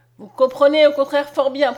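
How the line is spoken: Said harshly. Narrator (French): prononça-t-il durement

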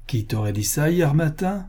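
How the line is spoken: Mocking tone. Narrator (French): commença-t-il d'un ton railleur

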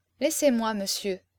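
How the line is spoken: Weary murmur. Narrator (French): murmura-t-elle très lasse

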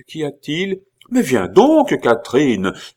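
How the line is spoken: Mother exclaiming. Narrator (French): s'écria la mère Billot, ne doutant point de l'effet qu'allaient produire ces paroles

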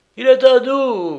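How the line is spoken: Triumphant yelp. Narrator (French): glapit le chef de la sûreté de San Francisco

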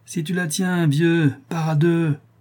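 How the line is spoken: Sneering. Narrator (French): dit Tortillard en ricanant

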